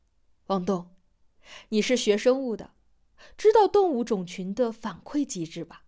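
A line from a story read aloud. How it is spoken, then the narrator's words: Smiling. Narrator (Chinese): 陈阿南满脸笑意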